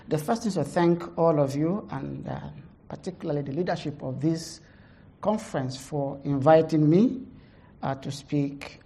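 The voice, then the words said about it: Heavy Nigerian accent. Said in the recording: “I have a heavy Nigerian accent”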